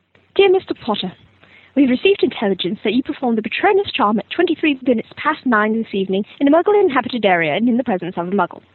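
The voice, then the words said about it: Character voice of a ministry official. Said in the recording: “doing an impersonation of Mafalda Hopkirk”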